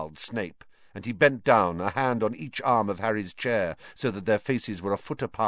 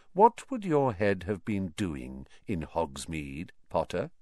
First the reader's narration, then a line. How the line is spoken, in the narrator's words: said Snape softly